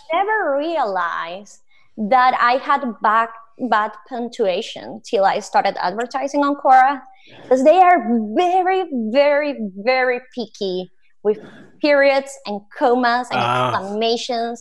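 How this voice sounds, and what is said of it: Noticeable accent. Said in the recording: “You can clearly see or hear that I have an accent.”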